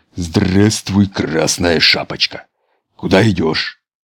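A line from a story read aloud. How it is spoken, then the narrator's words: Hoarse deep bass question. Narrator (Russian): спросил Волк хриплым басом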